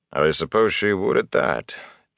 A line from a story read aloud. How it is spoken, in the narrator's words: Tom said dryly